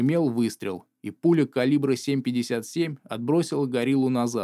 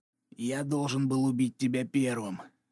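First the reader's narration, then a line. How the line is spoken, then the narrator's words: Hoarse breathy exhale. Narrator (Russian): хрипло выдохнул он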